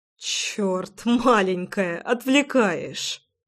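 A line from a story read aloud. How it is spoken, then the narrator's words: Chuckling. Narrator (Russian): Хохотнул я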